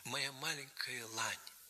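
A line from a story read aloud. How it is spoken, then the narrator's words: Whisper. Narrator (Russian): шепнул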